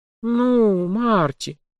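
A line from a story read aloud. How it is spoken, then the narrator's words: Drawling. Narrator (Russian): протянула журналистка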